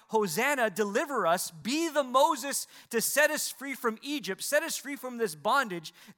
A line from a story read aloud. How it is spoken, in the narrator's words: the people shouting out